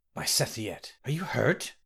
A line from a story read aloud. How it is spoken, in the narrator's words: Ramki whispered